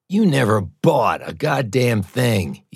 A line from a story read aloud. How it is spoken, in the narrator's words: Eben sneered